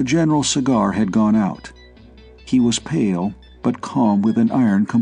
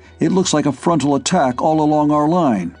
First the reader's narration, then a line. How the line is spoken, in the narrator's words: he said harshly